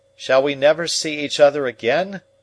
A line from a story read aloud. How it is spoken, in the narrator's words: called out